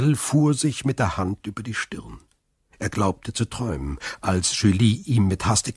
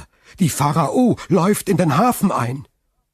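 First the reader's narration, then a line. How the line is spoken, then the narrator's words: Called out. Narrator (German): rief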